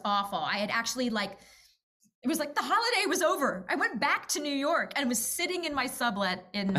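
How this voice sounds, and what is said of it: Usual voice. Nothing is said of it.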